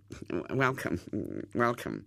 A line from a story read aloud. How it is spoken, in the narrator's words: Hubert muttered